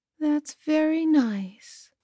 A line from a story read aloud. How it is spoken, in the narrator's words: said Mother sleepily